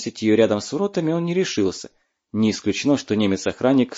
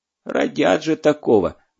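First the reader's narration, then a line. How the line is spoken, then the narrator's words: Grumbled. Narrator (Russian): бурчал он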